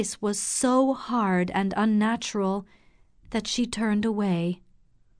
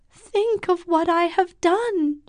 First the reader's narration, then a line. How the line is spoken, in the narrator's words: she cried